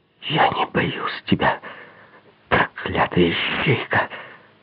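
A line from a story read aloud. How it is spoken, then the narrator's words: Hoarse voice. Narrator (Russian): хриплым голосом произнесла она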